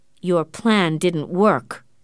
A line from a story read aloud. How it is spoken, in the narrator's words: Morris said angrily